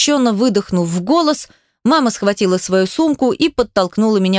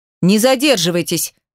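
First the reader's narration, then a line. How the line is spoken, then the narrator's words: Commanding, curt. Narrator (Russian): Приказным тоном бросил папа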